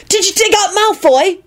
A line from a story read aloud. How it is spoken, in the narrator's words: he shouted accusingly at Quentin